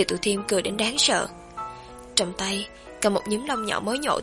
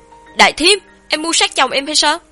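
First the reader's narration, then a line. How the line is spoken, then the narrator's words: Loud distant yell. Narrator (Vietnamese): tiếng hét lớn của Lương Đông vọng ra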